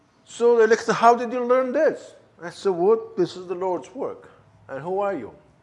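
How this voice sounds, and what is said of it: German-Turkish accented English. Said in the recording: “they hear my accent... I don't have a Turkish accent, I don't have a Kurdish accent, I don't have a Persian accent, I have a bad German-Turkish accent.”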